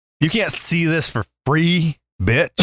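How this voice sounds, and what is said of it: Put-on Southern accent. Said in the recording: “That's my southern accent.”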